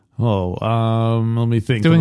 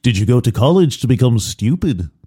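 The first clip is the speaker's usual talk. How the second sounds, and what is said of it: Imitates another person's voice. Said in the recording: “I do a fantastic Alec Guinness impression.”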